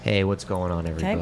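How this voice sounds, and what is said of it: Cartoon character voice. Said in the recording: “you sounded like a Hanna-Barbera cartoon character”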